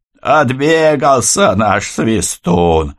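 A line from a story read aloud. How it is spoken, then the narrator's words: Hoarse, strange-voiced yell. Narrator (Russian): хриплым, не своим голосом заорал Киря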